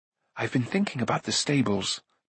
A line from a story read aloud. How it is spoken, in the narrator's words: Taran said anxiously